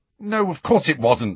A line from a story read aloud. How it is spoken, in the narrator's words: said Harry impatiently